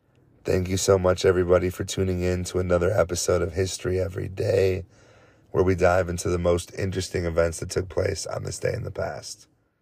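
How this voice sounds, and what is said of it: Shaky, tired voice. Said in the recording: “my voice is a little shaky ... I'm recording this late at night after a long day of family time and work. So I'm about ready for sleep.”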